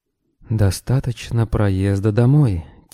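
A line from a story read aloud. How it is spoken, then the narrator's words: Quiet. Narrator (Russian): тихо сказал пилот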